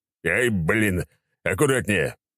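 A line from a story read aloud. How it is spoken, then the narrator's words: Growled. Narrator (Russian): рыкнул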